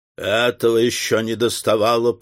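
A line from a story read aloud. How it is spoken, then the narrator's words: Grumbling. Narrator (Russian): проворчал Мастон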